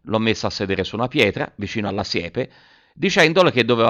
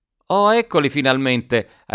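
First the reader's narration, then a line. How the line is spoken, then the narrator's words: Mother's relieved exclamation. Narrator (Italian): ha esclamato la mamma con un sospirone di sollievo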